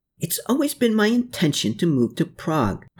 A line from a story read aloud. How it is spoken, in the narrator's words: Hermann cried out to Anna and Klaus